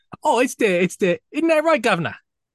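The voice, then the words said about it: Put-on Cockney accent. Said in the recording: “Cockney ... because I know exactly what Americans expect that to sound like”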